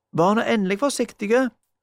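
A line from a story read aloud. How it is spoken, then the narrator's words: Shouting from afar. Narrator (Norwegian): ropte Magda, en plass ute i mørket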